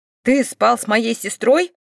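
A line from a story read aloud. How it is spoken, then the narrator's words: Sleepy angry growl. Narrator (Russian): прорычал лохматый заспанный карелец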